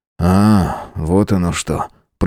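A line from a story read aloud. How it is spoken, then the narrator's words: Grumbling. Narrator (Russian): проворчал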